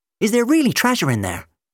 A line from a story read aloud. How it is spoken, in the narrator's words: Jim asked excitedly